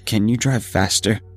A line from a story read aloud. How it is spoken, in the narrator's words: asked in a shaky voice